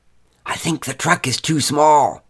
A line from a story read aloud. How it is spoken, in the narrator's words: whispered to me